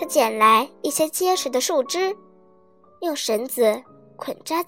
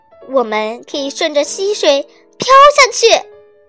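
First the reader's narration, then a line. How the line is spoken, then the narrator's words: Excited shout. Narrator (Chinese): 他兴奋地喊道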